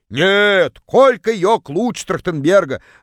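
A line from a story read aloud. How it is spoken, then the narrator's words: Yelled from far corner. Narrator (Russian): Заорала одна из них из самого дальнего угла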